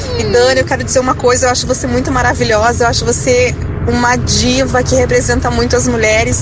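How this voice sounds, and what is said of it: Noticeable accent. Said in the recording (Portuguese): “e que sotaque, hein?”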